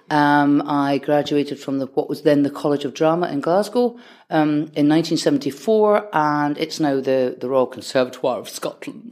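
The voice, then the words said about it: Scottish accent. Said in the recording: “as you can hear from my voice ... you can certainly tell I'm a Scot”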